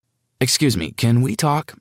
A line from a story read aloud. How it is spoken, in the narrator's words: I said